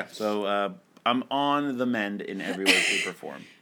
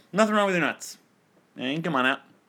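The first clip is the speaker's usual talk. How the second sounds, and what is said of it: Imitates another person's voice, badly. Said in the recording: “He's basically Norm MacDonald's impression of Burt Reynolds ... That's the terrible impression of an impression.”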